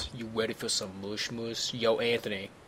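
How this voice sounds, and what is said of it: Exaggerated deep voice. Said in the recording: “goes deep sometimes ... The deep voice.”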